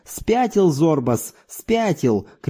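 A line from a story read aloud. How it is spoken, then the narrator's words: Group shouting. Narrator (Russian): кричали они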